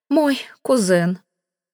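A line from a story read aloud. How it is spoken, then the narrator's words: Breathless aunt. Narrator (Russian): выдохнула тетушка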